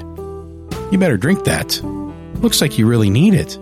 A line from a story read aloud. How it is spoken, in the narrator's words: chuckled again, and said